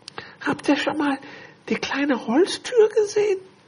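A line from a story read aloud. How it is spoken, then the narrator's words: Sudden whisper. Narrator (German): Plötzlich flüsterte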